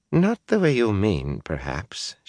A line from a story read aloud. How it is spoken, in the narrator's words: she replied calmly